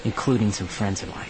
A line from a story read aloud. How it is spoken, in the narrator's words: Thane said quietly